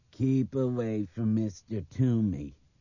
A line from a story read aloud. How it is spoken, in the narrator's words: Craig mimicked savagely